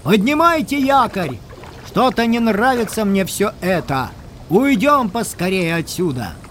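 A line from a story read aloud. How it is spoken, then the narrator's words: Loud shout. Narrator (Russian): старшина … а товарищем громко крикнул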